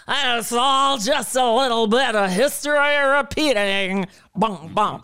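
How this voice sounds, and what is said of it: Singer impression, sung line. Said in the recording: “if I could do Shirley Bassey, she goes ... Forgive my impression”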